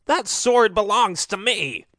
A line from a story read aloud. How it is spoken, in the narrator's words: the owner of the sword raging and yelling